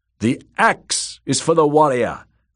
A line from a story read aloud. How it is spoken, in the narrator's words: Rus shouted back